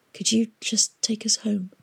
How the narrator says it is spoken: she whispered

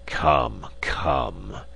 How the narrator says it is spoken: rumbled

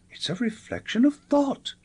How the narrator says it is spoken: cried

